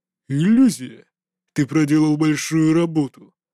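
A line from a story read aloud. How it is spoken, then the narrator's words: Cold reply. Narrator (Russian): холодно ответил мужчина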